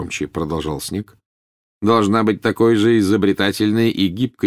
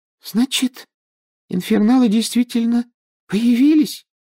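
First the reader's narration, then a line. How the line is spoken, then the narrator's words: Thin high voice. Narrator (Russian): тоненьким голоском спросила Парвати Патил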